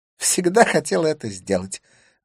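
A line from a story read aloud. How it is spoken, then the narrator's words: Cheerful declaration. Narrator (Russian): заявила она радостно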